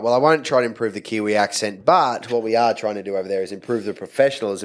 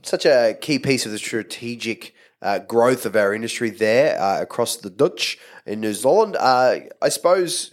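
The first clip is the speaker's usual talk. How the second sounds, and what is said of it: Bad attempt at Kiwi accent. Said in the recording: “that terrible, terrible Kiwi accent ... trying to do a Kiwi accent”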